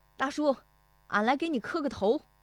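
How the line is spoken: Shouting. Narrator (Chinese): 石德义……进门就喊

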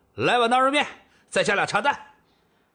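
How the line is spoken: Shouting. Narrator (Chinese): 赵正义朝后厨喊道

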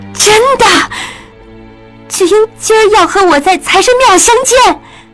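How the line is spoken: Surprised, joyful, rising loud. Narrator (Chinese): 雪鹰又惊又喜，不觉声音大起来

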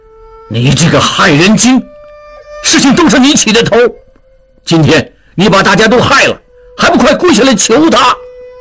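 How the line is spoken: Loud angry rebuke. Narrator (Chinese): 景清对最后站着不跪的应震大声怒斥

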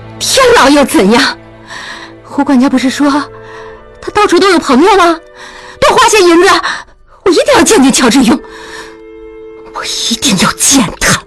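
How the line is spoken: Serious, no longer laughing. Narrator (Chinese): 雪英止住笑，说

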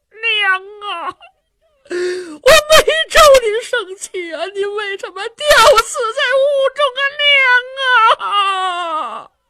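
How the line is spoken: Crying. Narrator (Chinese): 姚琦这么一哭

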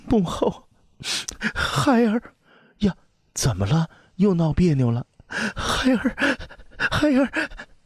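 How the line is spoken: Tearful aggrieved complaint. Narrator (Chinese): 阿娇那一肚子的委屈顿时泛上三焦，那泪水就像断了线的珠子涌出眼眶，哭诉道

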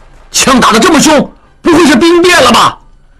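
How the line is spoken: Crowd clamoring. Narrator (Chinese): 望石和众犯人都嚷嚷起来

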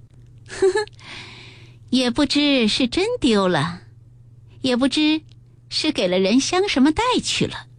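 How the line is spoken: Sneering. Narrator (Chinese): 黛玉冷笑道

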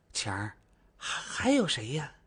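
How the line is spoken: Confused whisper. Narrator (Chinese): 周大妈没反应过来，悄声地问道

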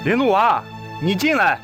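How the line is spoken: Hurried call outward. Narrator (Chinese): 李承训赶紧朝着屋外喊道

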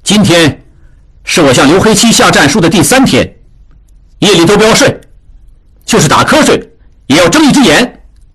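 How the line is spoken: Loud. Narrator (Chinese): 智庸大声说

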